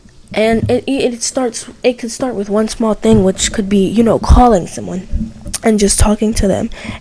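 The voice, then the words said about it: Rough, congested-sounding voice. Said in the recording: “I'm so sorry about my voice, by the way, everyone. ... I think my allergies must be flaring up or something.”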